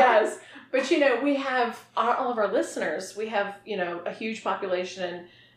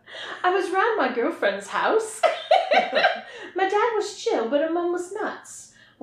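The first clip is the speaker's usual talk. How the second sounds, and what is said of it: Put-on British accent. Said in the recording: “So are you going to read this next one in a British accent? ... I certainly will.”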